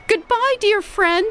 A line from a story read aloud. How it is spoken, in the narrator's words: squeaked Amos